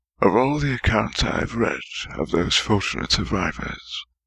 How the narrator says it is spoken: he said softly

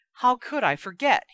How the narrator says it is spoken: cried

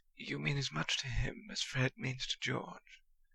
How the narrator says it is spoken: Percy said quietly

